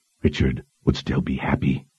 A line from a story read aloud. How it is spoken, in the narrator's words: Dushalu offered in a consoling whisper